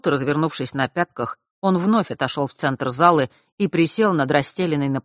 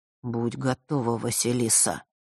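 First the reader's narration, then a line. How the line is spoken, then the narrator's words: Quiet. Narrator (Russian): тихо произнес Миракл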